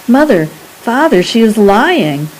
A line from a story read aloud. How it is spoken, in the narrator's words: I cried finally